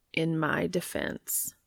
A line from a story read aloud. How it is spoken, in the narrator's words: Castiel says slowly